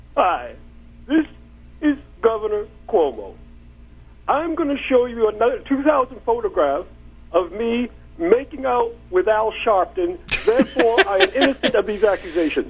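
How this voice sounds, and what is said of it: Impression of Governor Cuomo. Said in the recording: “great imitation”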